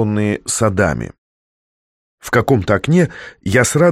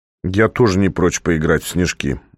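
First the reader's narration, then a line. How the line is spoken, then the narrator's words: Gloomy. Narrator (Russian): мрачно сказал Котя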